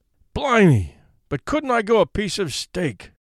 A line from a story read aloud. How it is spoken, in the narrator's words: he muttered aloud